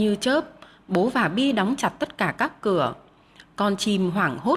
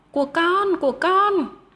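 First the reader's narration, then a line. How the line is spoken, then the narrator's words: Two voices shouting together. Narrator (Vietnamese): cả Bi và Giang cùng hét to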